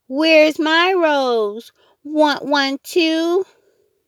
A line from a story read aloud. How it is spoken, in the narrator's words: Jenny hollered